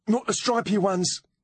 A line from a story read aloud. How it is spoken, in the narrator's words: He blurted